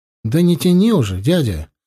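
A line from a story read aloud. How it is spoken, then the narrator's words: Exclaiming. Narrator (Russian): воскликнула Юра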